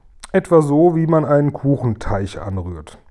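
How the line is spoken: Plain. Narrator (German): sagte der Guri

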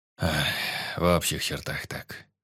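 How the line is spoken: Sighing. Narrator (Russian): вздохнул Сердюков

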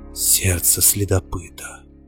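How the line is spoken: Whisper. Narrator (Russian): прошептал Монтолио

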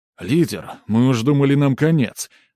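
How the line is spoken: Ecstatic breathless exhale. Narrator (Russian): восторженно выдохнул молодой игрок, которого, как припомнил маг, звали вроде как Бамп

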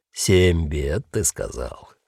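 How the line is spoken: Soft cooing bass. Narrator (Russian): мягко проворковал он своим прежним басом

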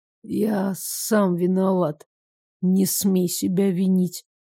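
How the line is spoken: Hoarse. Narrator (Russian): сказал хрипло

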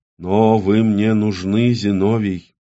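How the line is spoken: Dwarf's gentle explanation. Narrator (Russian): мягко объяснил карлик

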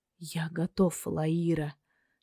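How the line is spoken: Weak voice. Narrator (Russian): Слабым голосом выразил свое мнение пострадавший

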